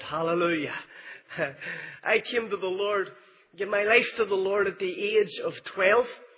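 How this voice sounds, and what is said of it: Northern Irish Belfast accent. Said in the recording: “You might know from the accent that I am from Belfast”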